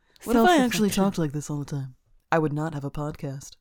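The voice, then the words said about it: Put-on accent. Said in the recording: “I didn't speak with this accent before, but now I do... if that was your voice”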